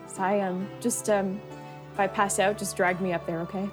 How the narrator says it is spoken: she looks so nervous, and she like shakily takes your arm and says

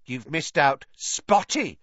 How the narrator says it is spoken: Peeves hissed in her ear

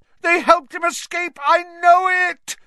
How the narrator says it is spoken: Snape howled

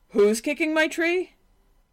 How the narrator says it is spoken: A large bear bellowed

